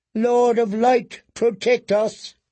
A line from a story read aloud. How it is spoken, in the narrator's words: cried Queen Selyse